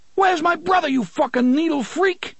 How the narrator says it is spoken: Claudio screamed

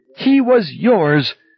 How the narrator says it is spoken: she screamed at him

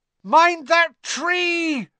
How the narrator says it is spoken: Harry bellowed

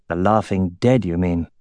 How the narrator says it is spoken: Orin muttered

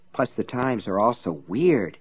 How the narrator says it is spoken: he muttered

